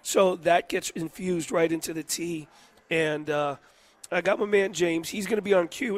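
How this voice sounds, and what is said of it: Hoarse, rough sick-sounding voice. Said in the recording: “It's just a different sound today. It's almost like I'm doing an impression.”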